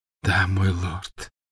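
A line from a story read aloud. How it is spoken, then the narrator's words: Tearful grateful whisper. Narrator (Russian): прошептала Беллатриса, и глаза ее снова наполнились слезами благодарности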